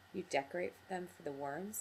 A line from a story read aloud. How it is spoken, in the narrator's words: said, and laughed